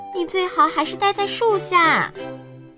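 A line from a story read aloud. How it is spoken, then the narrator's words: Calling out. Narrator (Chinese): 女农场主叫道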